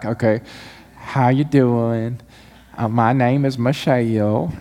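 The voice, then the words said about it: Put-on Central Mississippi Southern accent. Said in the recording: “her accent was adorable... She's truly from Central Mississippi... It had 3-4 syllables”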